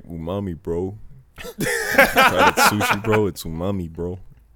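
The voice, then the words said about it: Imitates another person's accent. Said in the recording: “That's how he sound. ... Why you get his accent perfect? ... you bodied that shit”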